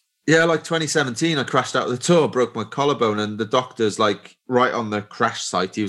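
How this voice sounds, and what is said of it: Usual voice. Nothing is said of it.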